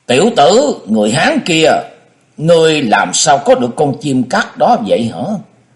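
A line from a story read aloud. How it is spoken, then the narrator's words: Loud, admiring. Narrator (Vietnamese): lòng tràn đầy hâm mộ, lớn tiếng nói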